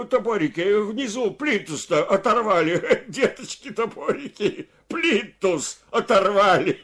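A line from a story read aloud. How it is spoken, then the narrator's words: Shouting. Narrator (Russian): костыль крикнул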